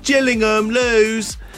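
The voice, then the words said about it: Imitates another person's voice. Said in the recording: “that was my impression of her.”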